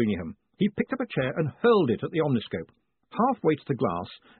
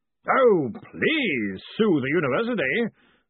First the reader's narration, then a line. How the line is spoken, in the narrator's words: Ridcully bellowed